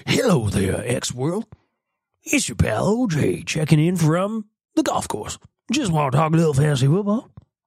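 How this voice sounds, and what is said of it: Imitates another person's voice. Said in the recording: “does a ridiculous OJ Simpson impression ... It's ridiculous.”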